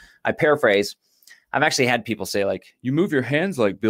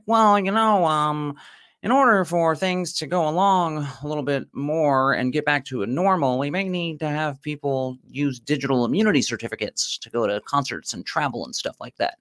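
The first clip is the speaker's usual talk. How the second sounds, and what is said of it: Impression of Bill Gates. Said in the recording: “I'll do an impression. He's like ... Bill Gates”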